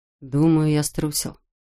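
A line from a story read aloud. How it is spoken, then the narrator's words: Quiet confession. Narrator (Russian): тихо признался Салли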